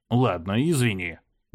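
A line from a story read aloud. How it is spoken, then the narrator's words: Grumble. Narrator (Russian): буркнул я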